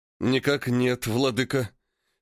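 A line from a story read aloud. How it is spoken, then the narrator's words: Hissing through clenched jaws. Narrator (Russian): Стиснув челюсти, прошипел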